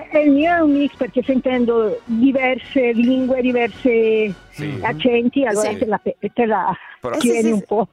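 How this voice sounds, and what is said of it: South American Spanish accent mixed Bergamasque. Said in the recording (Italian): “tu si hai un accento spagnolo ... Si sentiva. ... un po' è un mix, no? Tra il Sud America e il bergamasco”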